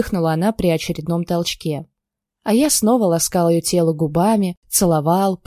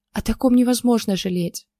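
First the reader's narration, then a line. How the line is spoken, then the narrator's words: Breathy exhale. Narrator (Russian): Выдохнула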